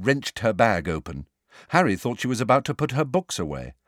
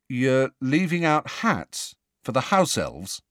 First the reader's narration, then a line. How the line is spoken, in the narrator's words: said Ron slowly